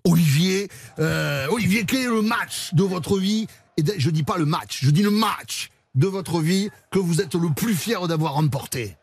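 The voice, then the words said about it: Put-on regional French accent. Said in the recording (French): “je vais la faire avec l'accent”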